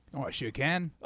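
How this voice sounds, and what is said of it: Impressive put-on Australian accent. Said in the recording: “can you do an Australian accent? ... Oh, wow. That's impressive.”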